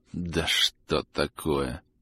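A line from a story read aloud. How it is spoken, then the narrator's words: Muttering. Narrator (Russian): пробормотал Арлекин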